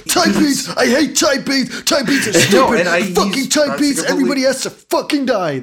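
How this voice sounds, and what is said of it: Shouting, imitates another person's voice. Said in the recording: “he would have gone wild ... That's my Frank impression.”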